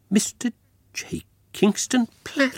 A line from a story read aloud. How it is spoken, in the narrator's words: gasped